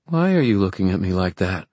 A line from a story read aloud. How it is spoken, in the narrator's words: she said